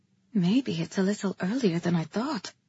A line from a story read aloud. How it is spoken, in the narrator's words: I murmured to him